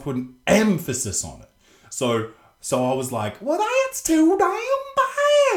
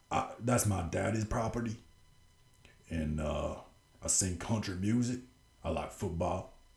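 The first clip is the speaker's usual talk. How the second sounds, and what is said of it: Put-on Texas accent. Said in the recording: “that accent ... start talking like this ... Like I'm from Texas”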